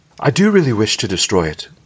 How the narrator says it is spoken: cried Frodo

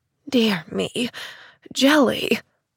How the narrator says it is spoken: murmured a fretful voice

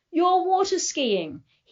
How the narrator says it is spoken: yell at me

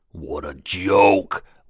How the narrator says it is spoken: one sneered near Jade

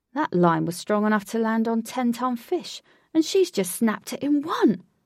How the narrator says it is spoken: gasped Alec

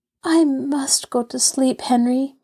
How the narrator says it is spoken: murmured Jess at last

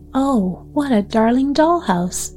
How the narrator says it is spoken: Maida exclaimed

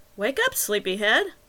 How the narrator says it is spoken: Wagner chirped cheerfully

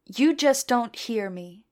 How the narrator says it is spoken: he said softly

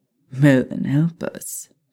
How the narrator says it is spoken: Theo chuckled

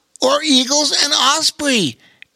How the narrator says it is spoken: added Bobo Chico excitedly

